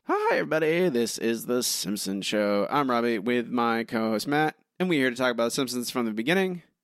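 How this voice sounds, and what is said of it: Slightly hoarse, strained voice. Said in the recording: “My voice is slightly wrecked from yelling at wrestling last night”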